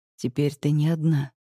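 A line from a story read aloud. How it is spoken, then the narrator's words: Calm reply. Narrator (Russian): спокойно отвечает он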